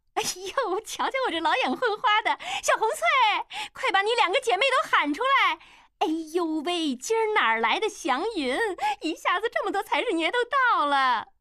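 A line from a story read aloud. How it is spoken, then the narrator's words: Beaming, delighted. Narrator (Chinese): 老鸨子 立马眉开眼笑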